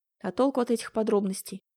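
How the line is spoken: Heavy sigh. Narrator (Russian): Черепанов тяжело вздохнул

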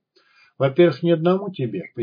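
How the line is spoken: Fairly calm explanation. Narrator (Russian): пояснил Жучара уже довольно спокойно

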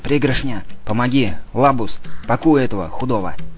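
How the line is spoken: Whisper. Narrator (Russian): Он шепнул

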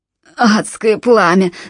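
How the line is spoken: Moaning. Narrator (Russian): стонал Джалабин

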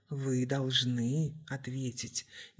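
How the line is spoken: Gently pressing. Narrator (Russian): мягко надавил врач

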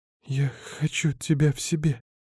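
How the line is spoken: Sobbing. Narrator (Russian): всхлипнула Эва

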